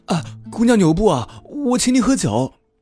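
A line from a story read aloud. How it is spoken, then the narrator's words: Calling out after someone. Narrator (Chinese): 酒肆的小伙计…喊道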